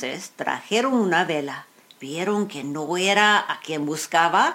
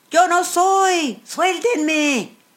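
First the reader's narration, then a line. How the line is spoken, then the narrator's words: Shouting. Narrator (Spanish): uno que no era, que empezó a gritar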